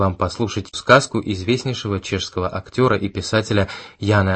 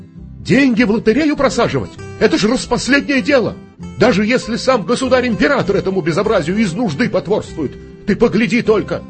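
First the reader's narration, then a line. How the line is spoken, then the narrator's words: Shouting. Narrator (Russian): Кричала она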